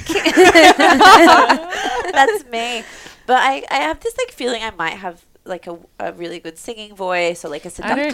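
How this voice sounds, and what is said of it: Nasal, blocked-nose voice. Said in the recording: “You with a peg on your nose. Is that what you described your voice? ... Yeah, that's what my voice sounds like.”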